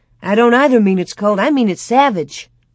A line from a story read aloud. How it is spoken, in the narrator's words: Laura snapped